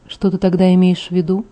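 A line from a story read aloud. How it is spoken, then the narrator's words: Gloomy question. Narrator (Russian): спросил мрачно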